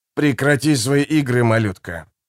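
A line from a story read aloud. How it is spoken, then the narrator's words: Growl. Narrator (Russian): прорычал Мюрис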